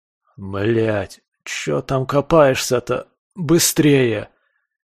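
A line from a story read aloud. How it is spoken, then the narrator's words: Groaning in pain. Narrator (Russian): застонал я от очередного приступа адской боли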